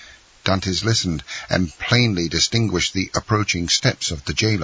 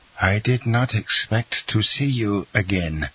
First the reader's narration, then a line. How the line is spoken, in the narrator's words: said he feebly to Dantès